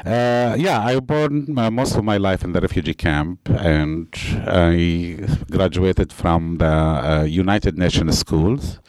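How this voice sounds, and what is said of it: Non-native English accent. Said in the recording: “my accent ... they don't teach English in the beginning in the school”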